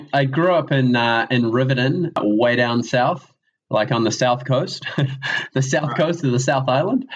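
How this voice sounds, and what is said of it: Strong southern New Zealand accent. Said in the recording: “in contrast to our very urbane Auckland accents, you have quite a robust southern accent.”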